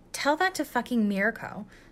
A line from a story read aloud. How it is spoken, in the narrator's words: scoffed Kirishima